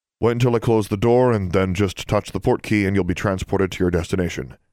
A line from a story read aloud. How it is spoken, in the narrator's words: he said